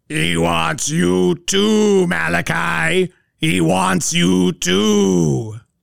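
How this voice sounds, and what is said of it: Horror movie character voice. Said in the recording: “I don't like that you can do that voice.”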